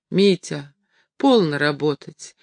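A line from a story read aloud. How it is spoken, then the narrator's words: Tender woman. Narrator (Russian): нежно сказала она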